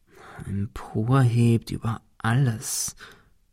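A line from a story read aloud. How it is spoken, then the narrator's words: Murmured. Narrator (German): murmelte Ben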